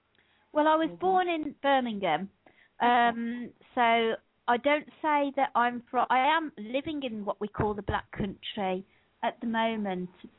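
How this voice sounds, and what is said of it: Birmingham (Brummie) accent. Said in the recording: “the Birmingham accent ... As Brummies, we try and shake our accent off. Well, I do, but I know I don't do it very successfully at all.”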